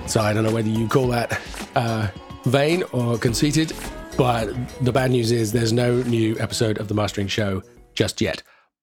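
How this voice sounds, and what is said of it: Croaky, congested voice. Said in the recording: “I have a pretty heavy cold... hear it in my voice... I'm pretty croaky, pretty blocked up... I hate the way my voice sounds like this”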